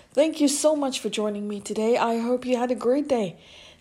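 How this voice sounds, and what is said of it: Slightly hoarse voice. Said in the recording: “I'm a little bit under the weather in the sense that I've been coughing a little bit more than usual this evening. So my voice might be a little bit hoarse”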